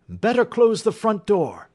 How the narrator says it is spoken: cried Holmes

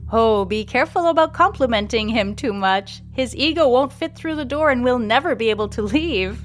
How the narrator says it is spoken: laughs Mandolina

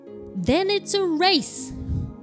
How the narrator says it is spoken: cried Michael

